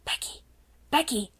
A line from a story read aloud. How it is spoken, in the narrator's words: she whispered as loudly as she dared